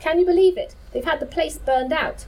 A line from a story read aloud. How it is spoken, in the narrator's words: was deeply shocked by what he found at the crash site, exclaiming